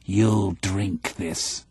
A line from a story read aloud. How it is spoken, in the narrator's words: he growled